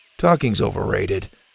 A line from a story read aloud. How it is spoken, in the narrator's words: Gavin said in his quiet, low voice